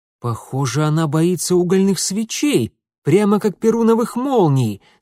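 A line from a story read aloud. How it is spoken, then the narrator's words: Delighted exclamation. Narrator (Russian): с восторгом первооткрывателя воскликнул он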